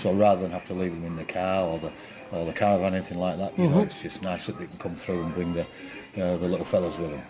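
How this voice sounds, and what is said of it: English accent. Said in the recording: “You come from England, we can immediately hear that in your accent.”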